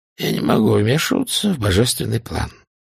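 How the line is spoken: Hoarse. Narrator (Russian): хрипло сказал он

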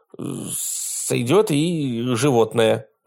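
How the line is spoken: Forced out. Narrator (Russian): выдавил он

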